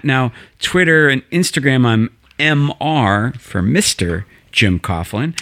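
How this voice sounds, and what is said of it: Southern accent. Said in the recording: “I thought you were going back into your southern accent there.”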